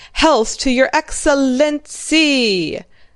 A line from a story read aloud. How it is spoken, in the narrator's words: The regiment roared